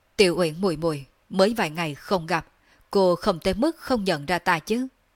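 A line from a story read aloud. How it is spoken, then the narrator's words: Loud laughing. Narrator (Vietnamese): Đường Phong cười lớn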